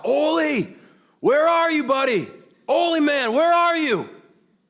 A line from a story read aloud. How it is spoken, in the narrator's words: We yelled out into the yard